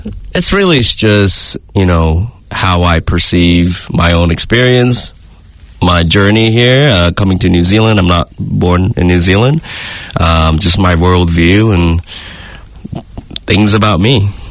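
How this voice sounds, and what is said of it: Accent with slight American tinge. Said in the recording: “your accent's got a tinge of Americanism”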